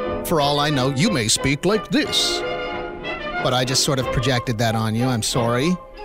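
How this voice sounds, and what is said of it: Usual voice. Nothing is said of it.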